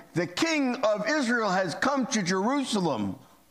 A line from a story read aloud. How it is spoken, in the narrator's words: Many people were shouting